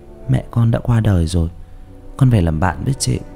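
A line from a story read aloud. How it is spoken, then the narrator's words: Soft comforting. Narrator (Vietnamese): Uyên nhỏ giọng an ủi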